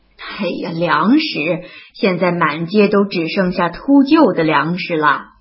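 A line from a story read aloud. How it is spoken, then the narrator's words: Hearty laughter. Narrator (Chinese): 英国军官先是一愣，而后哈哈地笑道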